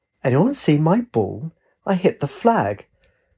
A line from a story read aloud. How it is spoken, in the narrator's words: He said in a joyful voice